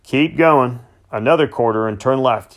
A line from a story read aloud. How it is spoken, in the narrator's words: called out